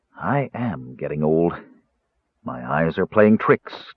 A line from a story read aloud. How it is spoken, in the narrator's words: Danubis told himself, shaking his head wearily